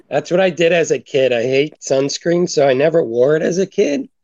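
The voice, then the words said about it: Losing voice, strained sound. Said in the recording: “I'm losing my voice.”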